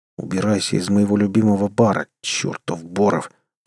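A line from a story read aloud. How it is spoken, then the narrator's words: Hissed. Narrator (Russian): прошипел я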